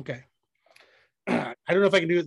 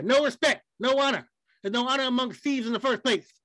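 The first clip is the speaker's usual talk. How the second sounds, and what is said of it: Imitates another person's voice. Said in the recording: “do the Dusty Rhodes voice? ... do the whole thing with Dusty Rhodes voice”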